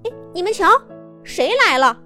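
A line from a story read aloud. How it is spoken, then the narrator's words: Shout. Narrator (Chinese): 这一喊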